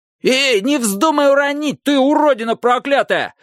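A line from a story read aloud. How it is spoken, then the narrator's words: Yelling. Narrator (Russian): завопил Джонни О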